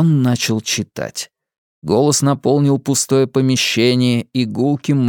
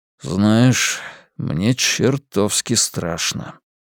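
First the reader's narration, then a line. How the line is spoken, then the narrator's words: Frightened mutter. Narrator (Russian): пробормотал Хантон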